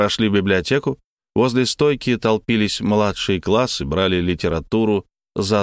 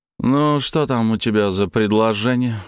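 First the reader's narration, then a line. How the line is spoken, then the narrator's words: Grumbling. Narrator (Russian): буркнул Хомутов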